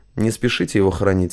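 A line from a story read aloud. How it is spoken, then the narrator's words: Soft, gentle. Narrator (Russian): мягко произнес Парамонов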